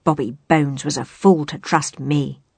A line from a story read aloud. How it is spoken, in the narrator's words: he growled